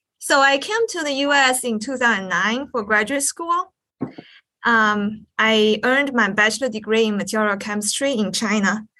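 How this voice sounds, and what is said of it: American accent. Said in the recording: “I can hear you've probably been in the US for a while because you have an American accent”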